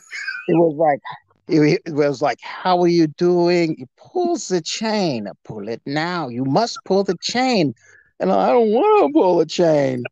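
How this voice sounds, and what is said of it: Imitates another man's accent. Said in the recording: “this guy's accent”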